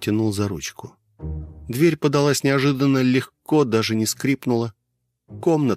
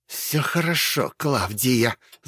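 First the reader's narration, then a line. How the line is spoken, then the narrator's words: Old woman hissing. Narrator (Russian): зашипела бабка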